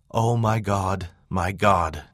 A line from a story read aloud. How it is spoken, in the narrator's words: groaned